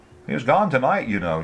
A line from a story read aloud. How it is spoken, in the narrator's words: she said